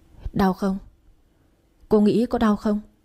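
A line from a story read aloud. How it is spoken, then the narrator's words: Plain question. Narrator (Vietnamese): Hỏi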